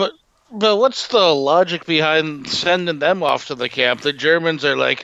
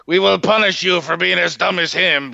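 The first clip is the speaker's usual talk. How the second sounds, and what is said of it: Accidental French-sounding accent. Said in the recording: “Why do I sound French?”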